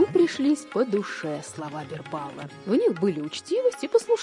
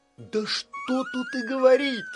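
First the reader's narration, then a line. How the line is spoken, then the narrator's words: Delighted exclamation. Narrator (Russian): восторженно воскликнул Бирбал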